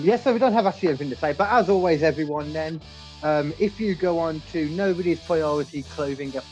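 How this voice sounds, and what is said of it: Usual voice. Nothing is said of it.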